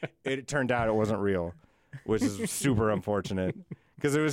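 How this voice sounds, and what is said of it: Usual voice. Nothing is said of it.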